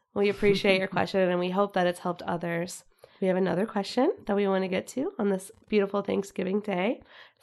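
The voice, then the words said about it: Weak, fading sick voice. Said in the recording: “I'm a little sick ... I feel like I'm losing my voice again”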